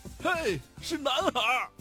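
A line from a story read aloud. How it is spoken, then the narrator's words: Husband shouting happily. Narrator (Chinese): 丈夫高兴地大叫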